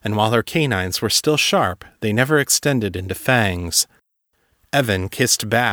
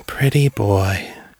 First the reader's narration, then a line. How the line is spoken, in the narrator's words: purred